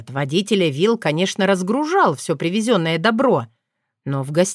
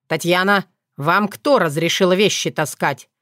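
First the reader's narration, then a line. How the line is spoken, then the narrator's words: Angry growl. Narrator (Russian): сердито рыкнул Сокол, торопливо сбегая по лестнице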